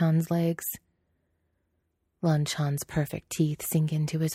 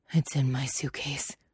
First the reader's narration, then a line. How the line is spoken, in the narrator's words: Lan Chan pants